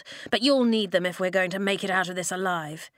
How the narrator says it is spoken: he growled

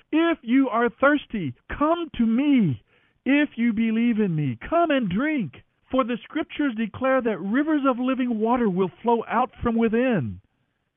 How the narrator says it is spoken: Jesus shouted to the crowds

